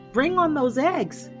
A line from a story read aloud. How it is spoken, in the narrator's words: he yelled to Damiana